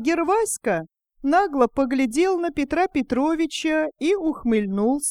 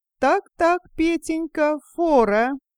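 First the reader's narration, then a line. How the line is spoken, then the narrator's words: Joyful high voice, near tears. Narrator (Russian): Радостно, тонким голосом воскликнул он и чуть не заплакал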